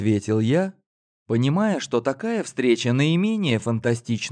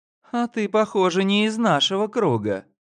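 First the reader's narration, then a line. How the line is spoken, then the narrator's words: Giggled. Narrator (Russian): хихикнула Карина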